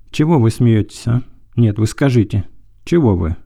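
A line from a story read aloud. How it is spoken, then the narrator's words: Joyful laughing question. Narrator (Russian): спрашивал мужчина и сам радостно смеялся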